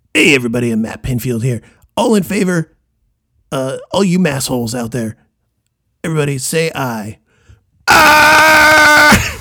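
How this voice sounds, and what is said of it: Imitates another person's voice. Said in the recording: “a Matt Pinfield impersonation”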